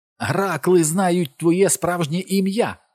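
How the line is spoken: Sudden shout. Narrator (Ukrainian): крикнула зненацька

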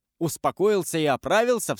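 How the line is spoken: Cried out. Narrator (Russian): вскрикнул

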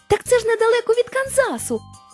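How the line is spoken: Exclaimed. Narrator (Ukrainian): вигукнула Дороті

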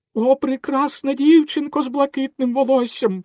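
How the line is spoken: Exclaimed. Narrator (Ukrainian): вигукнув Пінокіо

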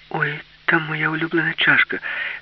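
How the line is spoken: Exclaimed. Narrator (Ukrainian): вигукнула Аліса

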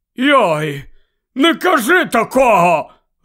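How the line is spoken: Rough shout. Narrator (Ukrainian): грубо крикнув Гегрід

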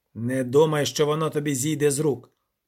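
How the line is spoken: Harsh devilish snarl. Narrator (Ukrainian): гаркнув диявол

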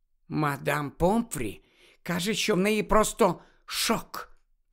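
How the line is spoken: Whispered. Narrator (Ukrainian): прошепотіла Герміона

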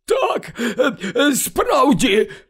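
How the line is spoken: Slurred drunken exclamation. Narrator (Ukrainian): вигукнув Слизоріг, у якого вже заплітався язик

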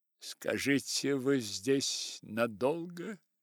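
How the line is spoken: Plain. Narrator (Russian): спросила Николь

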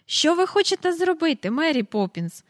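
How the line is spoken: Impatient exclamation. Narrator (Ukrainian): вигукнув Майкл, далі не втерпівши

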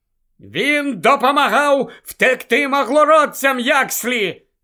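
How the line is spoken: Shouted. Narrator (Ukrainian): закричав Гаррі

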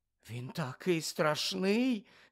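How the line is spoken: Whisper. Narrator (Ukrainian): зашепотіла Парваті

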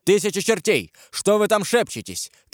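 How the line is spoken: Shout. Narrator (Russian): крикнул Карл

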